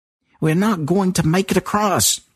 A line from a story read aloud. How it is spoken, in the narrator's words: James shouted